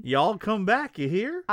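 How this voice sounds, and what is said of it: Put-on country accent. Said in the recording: “You don't talk like that. ... before he talks country anymore”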